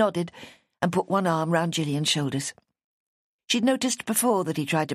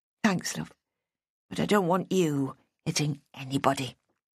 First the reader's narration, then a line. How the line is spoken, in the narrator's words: she said quietly